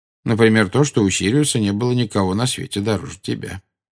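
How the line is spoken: Calm reply. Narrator (Russian): спокойно ответил Дамблдор

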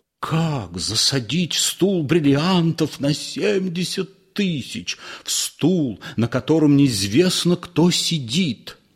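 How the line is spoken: Sobbing. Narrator (Russian): всхлипнула

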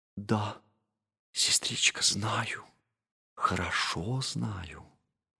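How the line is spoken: Whispering, hiding a smile. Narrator (Russian): султанша Балкис, мудрая Балкис Савская, поднесла руку к своим губам, чтобы скрыть игравшую на них улыбку, и снова прошептала

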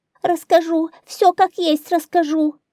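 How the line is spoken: Old woman screaming in fear. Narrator (Russian): Как только слуги стали приближаться к старухе, она завопила

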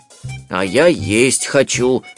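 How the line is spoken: Grumbling. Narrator (Russian): ворчал Берлиоз

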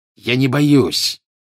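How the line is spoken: Growling. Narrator (Russian): прорычал Малфой

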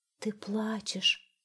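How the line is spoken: Sighing mist. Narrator (Russian): вздохнул туман

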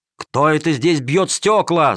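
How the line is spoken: Guards shouting. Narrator (Russian): закричали стражники

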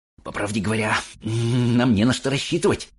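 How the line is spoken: Nervous whisper with laughter. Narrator (Russian): шептал он, нервно посмеиваясь

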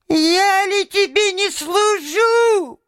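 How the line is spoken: Thin little voice. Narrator (Russian): прибавил он тоненьким голоском

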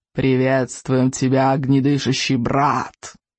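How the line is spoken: Hissed. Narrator (Russian): прошипел головотяп

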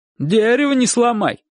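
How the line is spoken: Distant bark. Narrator (Russian): рявкнула из кухни тетя Маша

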